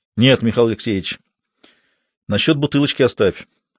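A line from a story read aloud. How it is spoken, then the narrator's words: Categorical tone. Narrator (Russian): категорическим тоном сказал Ведерников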